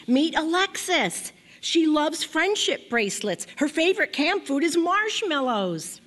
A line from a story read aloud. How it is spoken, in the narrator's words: shouted